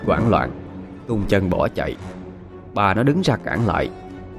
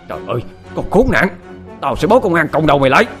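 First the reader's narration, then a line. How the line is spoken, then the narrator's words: Old woman screaming. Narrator (Vietnamese): Bà nó lại hét lên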